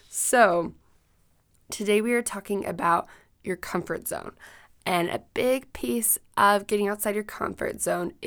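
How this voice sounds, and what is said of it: Extra raspy voice. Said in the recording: “I've been sick the past few, the past week ... if my voice sounds kind of funny ... I feel better, but I sound worse ... I'll have just an extra raspy voice for you guys today”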